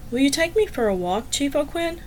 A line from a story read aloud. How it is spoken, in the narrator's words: said quietly